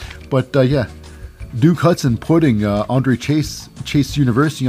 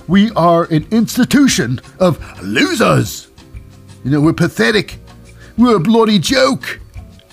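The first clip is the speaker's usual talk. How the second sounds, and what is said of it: Inconsistent, poor put-on accent. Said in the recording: “My accent is here and there. It's terrible.”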